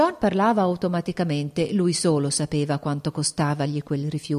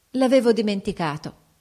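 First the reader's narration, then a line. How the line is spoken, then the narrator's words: Mock-angry exclamation. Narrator (Italian): esclamò scrollando la bella testa ricciuta e fingendo di essere in collera con se stessa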